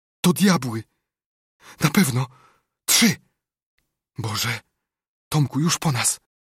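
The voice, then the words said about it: Frightened whisper. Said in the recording (Polish): “wyszeptał z przerażeniem”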